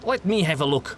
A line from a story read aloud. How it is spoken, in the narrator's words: Gustav demanded, gesturing impatiently